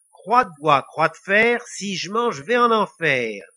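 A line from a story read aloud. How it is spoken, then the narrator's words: Plain. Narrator (French): dit Lily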